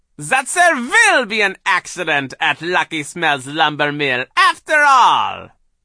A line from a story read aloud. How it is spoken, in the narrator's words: she said, cackling